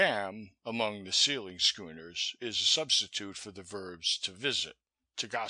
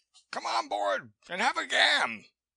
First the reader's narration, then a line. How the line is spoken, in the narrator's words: Wolf Larsen greeted them with a wave of the hand and cried